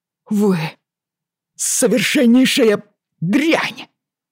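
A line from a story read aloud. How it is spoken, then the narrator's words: Breathless outburst. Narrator (Russian): выдохнул Уайли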